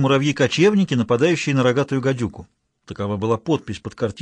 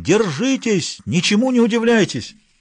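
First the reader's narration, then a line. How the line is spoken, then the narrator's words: Shouting. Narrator (Russian): кричал Думчев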